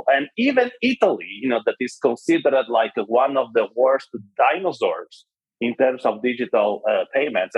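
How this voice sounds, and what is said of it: Italian accent in English. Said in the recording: “I'm Italian, if you haven't figured by the accent right now.”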